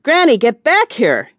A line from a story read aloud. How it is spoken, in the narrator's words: he yelled